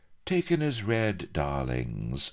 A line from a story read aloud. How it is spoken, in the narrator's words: she drawled